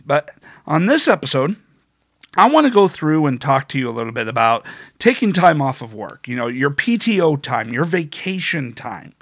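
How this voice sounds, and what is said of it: Congested, slightly funny-sounding voice. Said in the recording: “my voice maybe sounding a little bit funny, because of the congestion”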